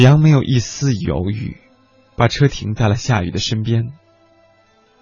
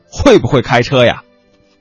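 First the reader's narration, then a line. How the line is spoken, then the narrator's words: Yelling. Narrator (Chinese): 还有人在叫嚷着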